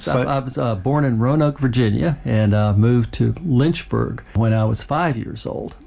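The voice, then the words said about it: Speaks with a regional accent. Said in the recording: “a bit of an accent there”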